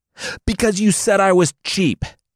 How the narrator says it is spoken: Jarl Neri screamed

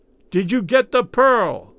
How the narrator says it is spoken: he yelled in Raoul's ear

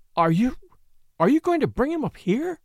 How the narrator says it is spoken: She gasped

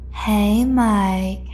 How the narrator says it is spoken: she had said in an irritating, seductive voice

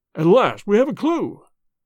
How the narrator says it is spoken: he cried

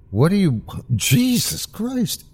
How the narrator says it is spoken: exclaimed

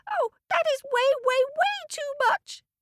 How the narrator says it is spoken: squeaked the ant

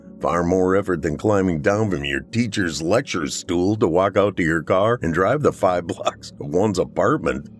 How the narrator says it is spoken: he laughed

